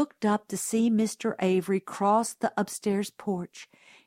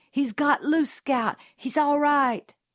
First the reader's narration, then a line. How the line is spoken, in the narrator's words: Jim cried